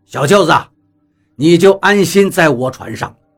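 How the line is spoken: Laughing. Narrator (Chinese): 光头笑道

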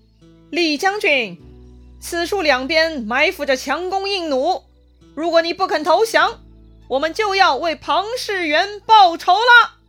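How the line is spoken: Shouting from the hill. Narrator (Chinese): 山上有人喊话了

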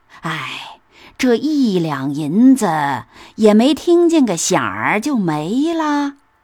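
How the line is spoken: Old woman sighing. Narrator (Chinese): 刘姥姥叹道

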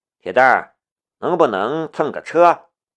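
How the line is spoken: Sighing. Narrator (Chinese): 南明叹了一口气，对旁边的铁蛋儿道

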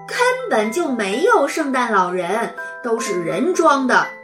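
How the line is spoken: Loud laughter. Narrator (Chinese): 雷天龙大笑

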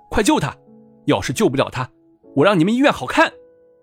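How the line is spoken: Urgent shouting. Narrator (Chinese): 景少云急急忙忙的喊

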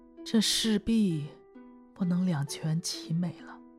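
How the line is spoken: Sighing. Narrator (Chinese): 龙女也叹息着说

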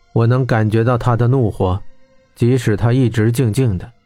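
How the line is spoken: Flat, calm. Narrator (Chinese): 左寻渊淡淡道

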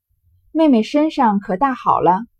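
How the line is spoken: Smiling. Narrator (Chinese): 宝玉笑着道

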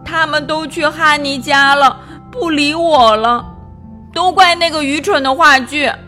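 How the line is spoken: Choked, sobbing. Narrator (Chinese): 波比哽咽着说

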